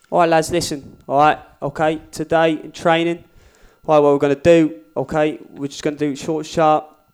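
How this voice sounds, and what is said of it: Football manager character, Watford accent. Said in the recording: “accent, different ... gaffer ... he's getting to character ... he's from Watford and he lives in Tottenham”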